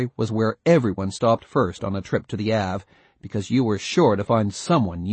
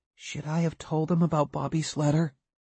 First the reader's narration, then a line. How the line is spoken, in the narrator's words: Mark asked softly